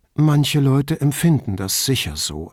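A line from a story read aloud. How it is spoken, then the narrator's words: Calm explanation. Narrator (German): erklärte Paula ruhig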